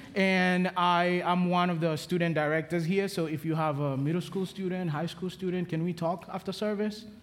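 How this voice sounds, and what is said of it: Kenyan accent. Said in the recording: “From the accent, I'm from Kenya”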